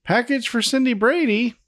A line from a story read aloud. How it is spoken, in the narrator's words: Alice yells yet again, saying